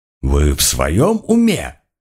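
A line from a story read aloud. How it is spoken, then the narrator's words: Indignant exclamation. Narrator (Russian): возмущенно воскликнул коронер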